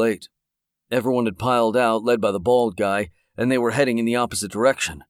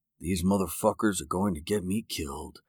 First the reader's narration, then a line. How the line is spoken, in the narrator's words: Darrell muttered